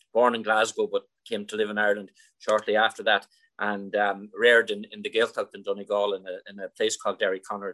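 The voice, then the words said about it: Mild Donegal Irish accent. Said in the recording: “the accent is so distinct at this stage. You grew up in Donegal ... the Donegal accent is, I think, is well watered down at this stage, but it's probably still a little bit there”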